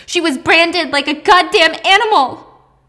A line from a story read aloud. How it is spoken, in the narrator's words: Anna's mom screams